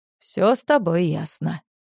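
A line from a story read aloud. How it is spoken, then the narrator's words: Sad summing up. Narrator (Russian): печально подытожил Григорий Николаевич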